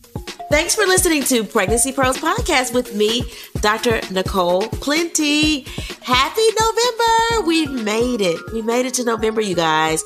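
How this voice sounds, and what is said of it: Congested, stuffy sick voice. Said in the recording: “you hear the congestion in my voice ... you're hearing me under the weather”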